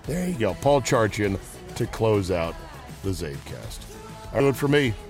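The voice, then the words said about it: Worn-out, strained voice. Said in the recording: “Sorry for the technical not so greatness of this podcast. My voice is shot.”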